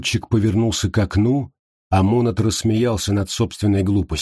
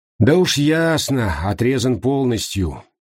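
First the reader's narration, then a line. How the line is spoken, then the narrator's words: Sighing. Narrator (Russian): вздохнул Монат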